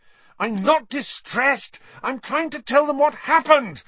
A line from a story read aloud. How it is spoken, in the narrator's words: Harry said furiously